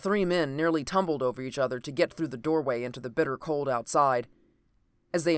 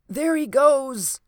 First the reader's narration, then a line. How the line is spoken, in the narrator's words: he cried